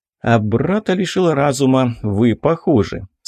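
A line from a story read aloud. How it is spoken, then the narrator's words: Calm. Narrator (Russian): спокойно продолжил Михаил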